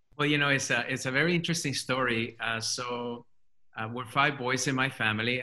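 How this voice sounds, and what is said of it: Speaks English with a foreign accent. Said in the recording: “your accent is amazing”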